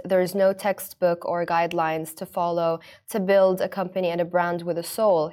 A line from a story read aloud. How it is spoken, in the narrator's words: he said